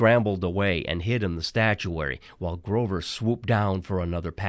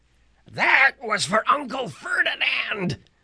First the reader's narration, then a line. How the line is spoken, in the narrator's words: Grover yelled back